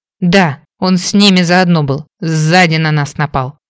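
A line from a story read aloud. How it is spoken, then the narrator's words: Angry, hissing in pain. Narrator (Russian): сердито выговорил мужчина, зашипев от боли, когда Берта притронулась к его кровоточащей ране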